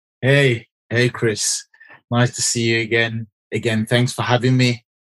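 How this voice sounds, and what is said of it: English accent. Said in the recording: “I hear this accent. Where is this guy from? ... I am in Birmingham, which is in England, UK.”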